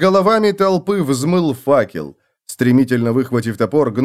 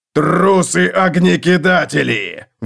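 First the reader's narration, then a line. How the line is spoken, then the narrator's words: Roaring. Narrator (Russian): взревел Готрек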